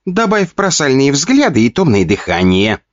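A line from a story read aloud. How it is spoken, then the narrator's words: Giggling little demon. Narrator (Russian): хихикал чиби-демон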